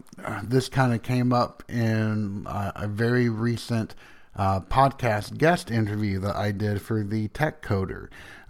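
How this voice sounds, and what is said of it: Strong Southern US accent. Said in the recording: “my accent. And so people that are not from the South, they listen to me, they're like, wow, you've got a really strong accent”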